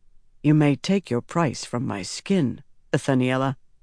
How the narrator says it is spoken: Rand said softly

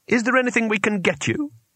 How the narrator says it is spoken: said Twoflower, anxiously

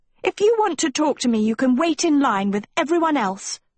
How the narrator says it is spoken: Sophie yelled

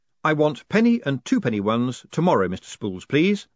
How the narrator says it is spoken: said Moist firmly

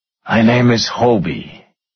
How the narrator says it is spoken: he said

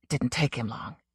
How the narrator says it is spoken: Anderton muttered, appalled

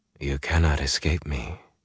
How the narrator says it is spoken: she murmured

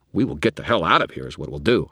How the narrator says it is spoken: muttered

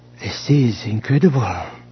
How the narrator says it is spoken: she murmured

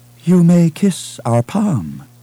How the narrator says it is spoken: she said in a languid Kuati accent

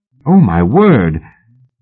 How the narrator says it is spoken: He raised his voice to a shout

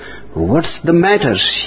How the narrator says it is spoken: he said

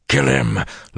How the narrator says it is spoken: Luz Theron muttered

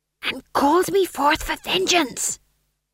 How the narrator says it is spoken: hissed Tom John

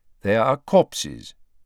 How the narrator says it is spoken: said Dumbledore calmly

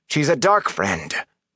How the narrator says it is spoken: Matt spat the word

